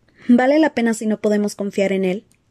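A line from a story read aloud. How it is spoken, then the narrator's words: Plain question. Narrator (Spanish): preguntó Hermione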